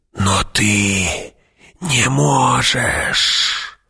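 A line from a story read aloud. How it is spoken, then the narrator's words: Whispered. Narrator (Russian): прошептала она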